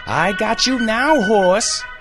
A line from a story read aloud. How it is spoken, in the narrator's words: He screamed